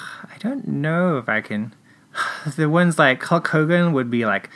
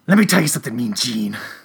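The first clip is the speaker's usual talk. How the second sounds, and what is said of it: Imitates a wrestler's voice. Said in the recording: “that was your Hulk impersonation”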